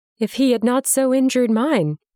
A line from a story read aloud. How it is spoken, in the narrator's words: Lizzie said, now openly laughing